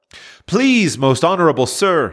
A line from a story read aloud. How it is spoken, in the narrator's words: he pleaded